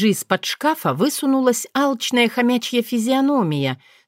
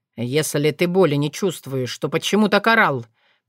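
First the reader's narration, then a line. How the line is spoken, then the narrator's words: Curious falcon asking. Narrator (Russian): полюбопытствовал сокол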